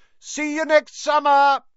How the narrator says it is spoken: Harry yelled

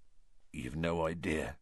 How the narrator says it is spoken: said Hagrid quietly

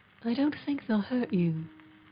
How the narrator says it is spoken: the boy murmured again

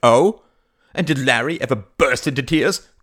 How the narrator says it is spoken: cried Mary

